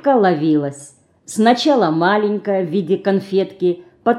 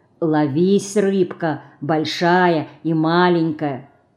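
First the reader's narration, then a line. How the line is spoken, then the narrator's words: Quiet repetition. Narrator (Russian): она тихо повторяя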